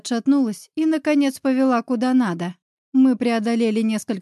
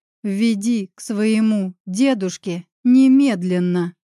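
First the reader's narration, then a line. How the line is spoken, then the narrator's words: Through gritted teeth. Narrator (Russian): процедила я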